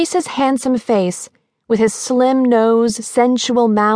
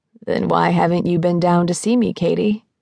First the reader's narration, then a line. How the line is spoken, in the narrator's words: He lowered his voice